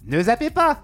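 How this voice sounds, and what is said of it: Imitates another person's voice, high-pitched. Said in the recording (French): “mon imitation de Morandini ... Un peu dans les aigus, je crois.”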